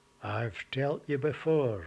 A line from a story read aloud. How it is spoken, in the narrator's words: replied with a long-suffering sigh